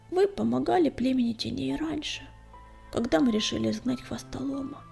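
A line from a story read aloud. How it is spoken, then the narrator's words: Quiet reply. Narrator (Russian): тихо ответил он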